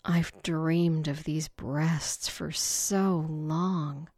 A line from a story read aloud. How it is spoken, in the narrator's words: Candy said with a sigh